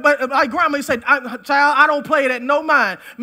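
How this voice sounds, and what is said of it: Folksy rural country dialect. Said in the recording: “I know I'm talking country today”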